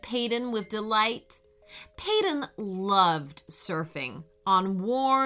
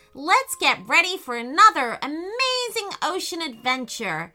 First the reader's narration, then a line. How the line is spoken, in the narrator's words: shouted Payton